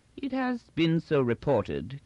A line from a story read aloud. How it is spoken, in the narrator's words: continued Inchney coolly